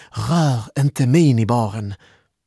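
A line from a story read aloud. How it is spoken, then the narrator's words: Exclaimed. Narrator (Swedish): utbrast Malin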